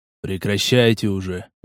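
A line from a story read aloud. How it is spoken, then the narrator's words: Man sighing. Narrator (Russian): вздохнул мужчина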